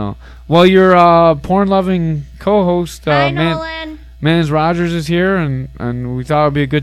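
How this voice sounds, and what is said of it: Usual voice. Nothing is said of it.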